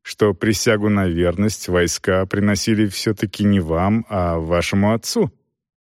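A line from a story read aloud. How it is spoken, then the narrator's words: Calm objection. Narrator (Russian): спокойно возразил Селдон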